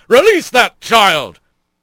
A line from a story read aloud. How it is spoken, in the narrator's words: the bird yelled